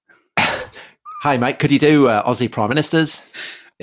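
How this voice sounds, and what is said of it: Put-on Australian accent. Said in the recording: “And they didn't say it in that accent”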